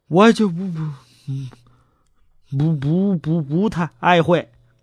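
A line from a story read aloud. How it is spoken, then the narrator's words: Startled stammering. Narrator (Chinese): 乔治六世先是一惊啊 结结巴巴的说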